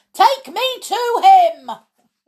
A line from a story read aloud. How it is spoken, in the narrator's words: Maisie yelled